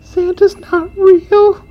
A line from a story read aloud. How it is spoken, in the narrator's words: Amelia squealed